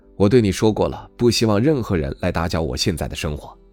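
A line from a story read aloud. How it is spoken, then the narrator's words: Cool, indifferent. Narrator (Chinese): 朱迅淡淡的道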